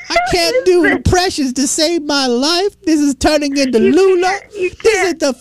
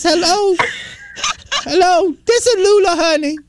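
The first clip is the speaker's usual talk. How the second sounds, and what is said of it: Old woman character voice. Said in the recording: “my old woman voice ... old lady voice”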